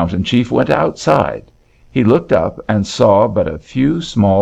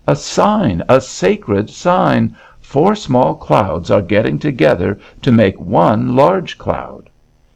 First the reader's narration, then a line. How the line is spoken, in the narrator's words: he cried out